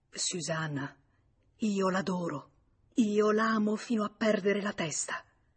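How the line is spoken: Low restrained voice. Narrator (Italian): lui le disse piano, rattenendo la voce

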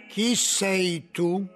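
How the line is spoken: Plain. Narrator (Italian): chiese

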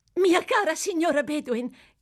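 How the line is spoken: Shouted. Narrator (Italian): gridò

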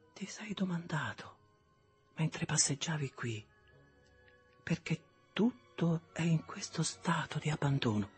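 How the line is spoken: Soft, holding back tears. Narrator (Italian): facendo uno sforzo per frenarle, ella disse piano

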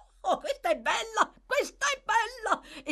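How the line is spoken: Laughing young man exclaiming. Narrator (Italian): esclamò il signorino Charlie Bates, dai cui polmoni era scaturita la risata

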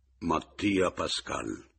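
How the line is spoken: Gloomy voice, syllable by syllable. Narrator (Italian): con voce cupa, quasi sillabando, dissi

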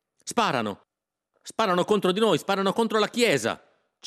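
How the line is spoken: Group shouting. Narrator (Italian): ci mettemmo a gridare

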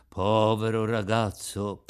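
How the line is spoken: Fishermen speaking together. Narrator (Italian): dissero i pescatori

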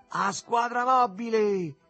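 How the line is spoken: Ironic shout through cupped hand. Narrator (Italian): gridò ironico, con una mano a ventaglio contro la bocca

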